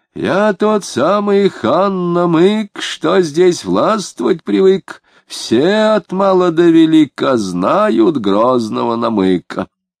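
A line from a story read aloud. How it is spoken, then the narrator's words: Frenzied snorting recitation. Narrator (Russian): Безбедов неистовым голосом, всхрапывая, стал декламировать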